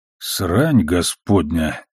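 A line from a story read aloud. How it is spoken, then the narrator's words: Flat mutter. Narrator (Russian): невыразительно пробормотал Амос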